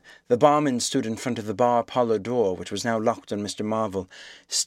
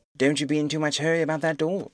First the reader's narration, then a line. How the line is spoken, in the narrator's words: said the anemic cabman anxiously